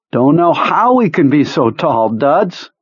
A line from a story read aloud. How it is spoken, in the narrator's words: Pete says, laughing